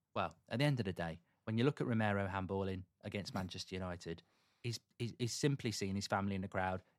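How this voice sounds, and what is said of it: Imitates another person's voice. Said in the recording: “great Dermot Gallagher impression”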